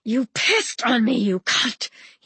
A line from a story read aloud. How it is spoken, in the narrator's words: he wheezed